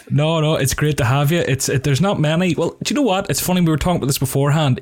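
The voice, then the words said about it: Northern accent. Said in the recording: “people who talk like us ... who are from the north ... compliments my accent ... she loves the accent ... One of the sexiest accents in the world”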